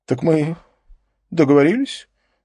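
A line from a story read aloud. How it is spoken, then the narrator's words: Trembling voice. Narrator (Russian): Дрогнувшим голосом обратился он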